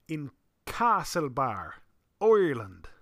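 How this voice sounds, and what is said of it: Poor put-on Irish accent. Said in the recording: “that's probably a terrible, terrible Irish accent”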